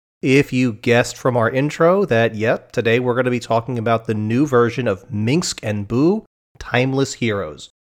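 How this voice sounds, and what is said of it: Sick, congested voice. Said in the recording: “my voice is really not where it should be right now ... sniffles and coughs and throat clearings”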